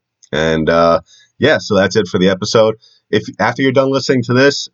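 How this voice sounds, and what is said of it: Congested, sick-sounding voice. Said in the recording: “You can tell it in my voice. I still am dealing with a little bit of a cold”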